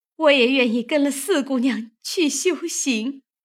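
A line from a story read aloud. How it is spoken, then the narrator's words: Sobbing bitterly. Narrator (Chinese): 袭人 痛哭不止，说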